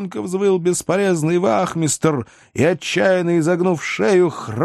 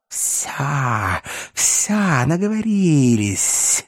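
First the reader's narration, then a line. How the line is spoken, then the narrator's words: Hissing. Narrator (Russian): прошипела мерзавка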